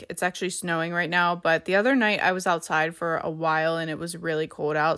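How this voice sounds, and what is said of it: Slightly off, sick-sounding voice. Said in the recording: “my voice sounds a little bit off. I'm pretty sure I'm getting sick ... I'm pretty sure I'm getting a cold from that ... I sound a little bit weird”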